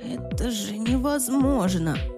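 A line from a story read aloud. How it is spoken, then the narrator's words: Stunned gasp. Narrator (Russian): пораженно выдохнул Джимми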